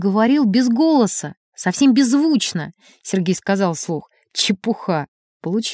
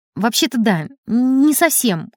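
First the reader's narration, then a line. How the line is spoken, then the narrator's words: Foolish mumble. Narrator (Russian): глупо промямлил Сережка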